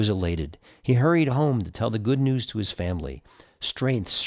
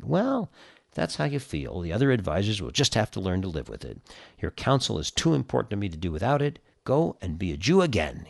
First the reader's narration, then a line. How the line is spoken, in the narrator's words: he said